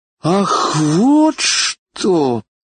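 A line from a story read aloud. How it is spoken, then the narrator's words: Deep sigh. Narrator (Russian): сказала пассажирка, глубоко вздохнув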